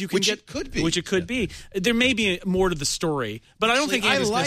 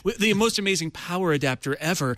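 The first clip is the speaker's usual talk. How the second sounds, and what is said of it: Jony Ive impression, British accent. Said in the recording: “Maybe it's Johnny Ive. I'm almost doing his accent.”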